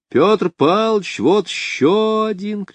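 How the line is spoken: Shouting schoolchildren. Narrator (Russian): кричали школьники

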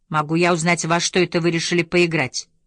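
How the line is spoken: Stern teacherly question. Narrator (Russian): спросила она суровым тоном, напомнившим мне мадам Био, мою последнюю учительницу

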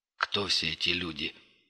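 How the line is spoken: Quiet question. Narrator (Russian): тихо спросил Крот

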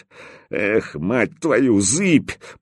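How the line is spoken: Muttered then shouted. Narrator (Russian): пробормотал и крикнул

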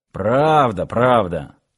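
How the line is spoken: Grimacing grumble. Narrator (Russian): буркнул слегка поморщившись начальник гарнизона

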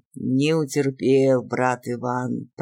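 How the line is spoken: Grumbling. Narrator (Russian): проворчал он

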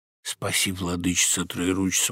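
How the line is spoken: Stammering old man mutter. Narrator (Russian): бормотал, запинаясь дед

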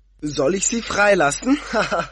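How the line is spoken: Laughing shout. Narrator (German): rief er und lachte

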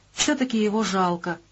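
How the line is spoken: Compassionate sigh. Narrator (Russian): вздохнула сердобольная Вилька

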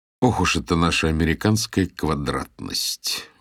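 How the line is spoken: Grumbled. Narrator (Russian): ворчал я

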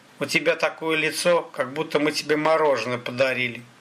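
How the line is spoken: Snorting. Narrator (Russian): хмыкнул Сахалин

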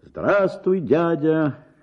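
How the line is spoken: Shouting from afar. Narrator (Russian): Крикнул я еще издали

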